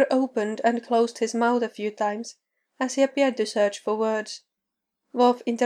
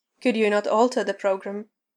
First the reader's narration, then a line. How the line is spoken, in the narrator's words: The pompous Klingon mode was accompanied by this particular grumbling voice